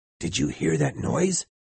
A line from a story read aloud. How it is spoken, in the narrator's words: I heard one of the seamen whisper to another